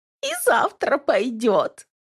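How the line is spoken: Giggling. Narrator (Russian): хихикает

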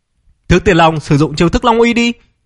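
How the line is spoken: Loud shout. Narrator (Vietnamese): Phong Tiêu lập tức hét lớn một tiếng

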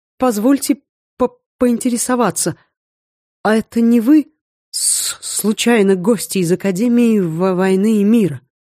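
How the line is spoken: Stuttering, frightened. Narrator (Russian): заикаясь на каждом слове, произнес

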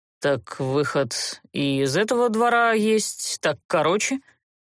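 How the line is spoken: Gloomy remark. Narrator (Russian): мрачно обронил герцог

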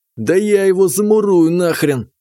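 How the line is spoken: Grim promise. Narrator (Russian): мрачно пообещал Сытин

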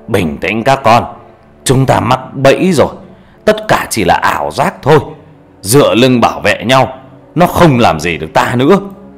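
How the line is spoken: Old man shouting. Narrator (Vietnamese): Ông cụ Càng thấy vậy thì quát lên

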